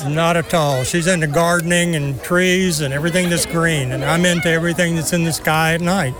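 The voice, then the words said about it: Texan accent. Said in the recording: “the accent. Where are you from, sir? ... Texas.”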